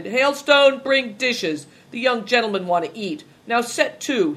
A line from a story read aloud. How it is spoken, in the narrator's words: he continued, laughing